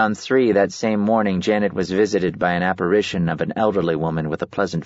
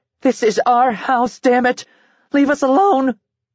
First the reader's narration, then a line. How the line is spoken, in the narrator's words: Janet cried out